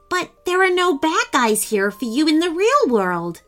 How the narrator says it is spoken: Timmy exclaimed, worried about how he would get Meteor Man back in his comic book

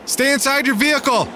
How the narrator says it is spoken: screamed

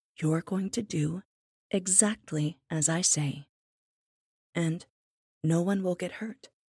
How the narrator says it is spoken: he said

